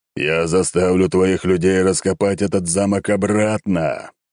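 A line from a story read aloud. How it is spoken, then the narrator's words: Knight's roar. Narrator (Russian): взревел рыцарь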